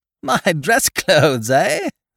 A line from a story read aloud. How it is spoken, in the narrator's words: I laughed genially